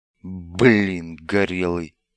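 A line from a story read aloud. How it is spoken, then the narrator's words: Muttered through teeth. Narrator (Russian): процедил Бибик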